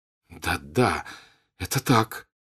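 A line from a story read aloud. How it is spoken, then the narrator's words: Joyful. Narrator (Russian): радостно сказал Пьер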